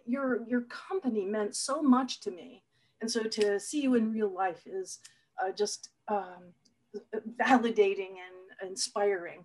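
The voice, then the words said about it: Voice choked up with emotion. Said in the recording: “getting choked up a little bit”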